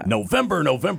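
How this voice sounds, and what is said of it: Authoritative NFL Films announcer voice. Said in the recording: “in like an official voice ... It's like NFL films or something ... in that authoritative playoff voice”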